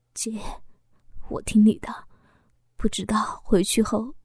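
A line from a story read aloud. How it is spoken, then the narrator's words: Tearful hoarse voice. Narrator (Chinese): 小峰流着眼泪，沙哑的说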